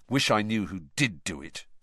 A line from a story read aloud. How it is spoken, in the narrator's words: said Harry bitterly